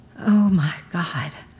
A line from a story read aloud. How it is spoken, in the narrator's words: I whisper one more time